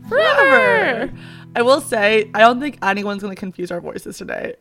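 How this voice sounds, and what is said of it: Very hoarse, voice cutting out. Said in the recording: “hoarse as a horse ... like cutting in and out of words and like very, very hoarse”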